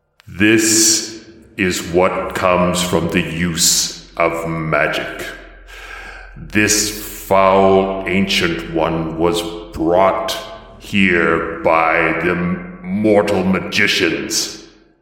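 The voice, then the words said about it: Deep, dark, angry character voice. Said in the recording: “deep voice that is a blend of Templars and this deeper, darker, angrier voice”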